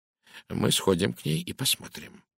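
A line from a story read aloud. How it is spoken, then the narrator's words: Quiet speech. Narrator (Russian): тихо промолвил он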